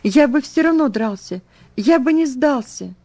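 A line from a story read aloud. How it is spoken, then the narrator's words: Tearful fervent teen exclamation. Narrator (Russian): Подросток лет 15 со слезами на глазах с жаром воскликнул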